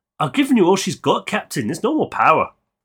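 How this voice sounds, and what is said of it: Poor put-on Scottish accent. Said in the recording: “As a terrible attempt at a Scottish accent.”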